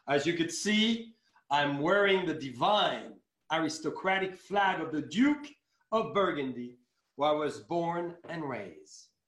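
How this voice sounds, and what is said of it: French accent. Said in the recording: “I'm going to take my French accent a little more”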